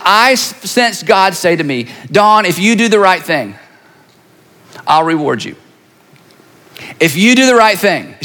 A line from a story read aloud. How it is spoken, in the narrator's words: She said